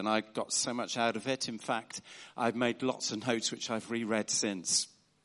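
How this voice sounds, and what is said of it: Southern English accent. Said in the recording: “you can probably tell from my accent that I am a newcomer to the north... moved up about 4 or 5 years ago from the sunny south coast”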